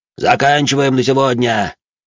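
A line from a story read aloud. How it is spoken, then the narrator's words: Shouted. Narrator (Russian): крикнул он им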